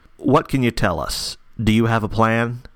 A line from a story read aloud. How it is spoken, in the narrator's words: Chevalier asked Accord